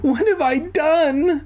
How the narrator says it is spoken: I wailed

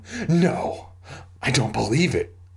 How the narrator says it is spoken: I gasped

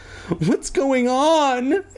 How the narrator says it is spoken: Andy cried

